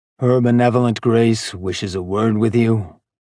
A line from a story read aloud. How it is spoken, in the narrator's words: the daemon said in a low, even tone